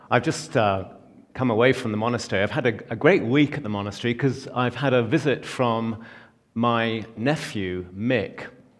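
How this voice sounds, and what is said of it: Non-American accent. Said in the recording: “As you can tell from my accent, I come from a very old Boston family. ... Well, a few thousand miles east”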